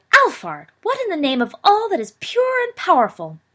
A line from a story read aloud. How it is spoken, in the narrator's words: Walburga cried